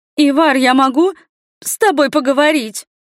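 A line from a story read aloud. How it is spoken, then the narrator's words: Woman's voice squealing. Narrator (Russian): На последнем слове женский голос взвизгнул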